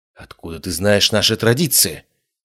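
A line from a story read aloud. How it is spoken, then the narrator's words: Whisper. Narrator (Russian): прошептала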